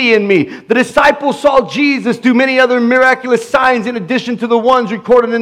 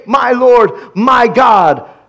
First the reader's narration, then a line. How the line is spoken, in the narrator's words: Thomas exclaimed